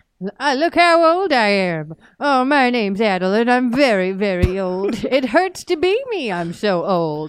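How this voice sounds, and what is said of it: Exaggerated very old man voice. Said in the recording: “my impression of Old Man Puzzies”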